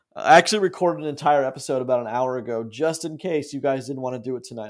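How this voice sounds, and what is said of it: Hoarse, fading voice. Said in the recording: “you can hear my voice is kind of going hoarse, hoarse ... My voice is gone.”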